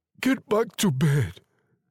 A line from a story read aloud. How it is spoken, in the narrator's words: he said, his voice shaking